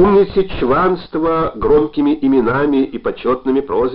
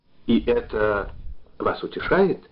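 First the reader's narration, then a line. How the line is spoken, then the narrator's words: Quiet question. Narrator (Russian): негромко спросил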